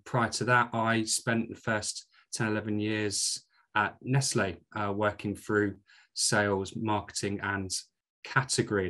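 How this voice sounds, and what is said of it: Scottish accent. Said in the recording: “you don't sound like your accent's from Yorkshire ... I'm a proud Scot, as you can tell from my accent”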